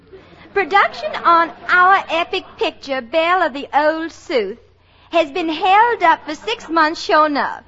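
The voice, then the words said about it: Put-on Southern accent. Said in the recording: “a girl with a southern accent”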